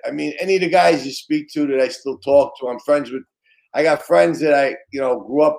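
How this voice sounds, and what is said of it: Brooklyn New York accent. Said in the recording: “your Brooklyn accent ... New York accents”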